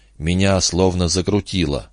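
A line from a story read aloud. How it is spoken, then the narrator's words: Barely audible. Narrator (Russian): еле слышно выговорил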